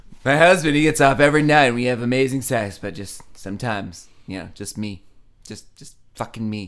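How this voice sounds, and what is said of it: Usual voice. Nothing is said of it.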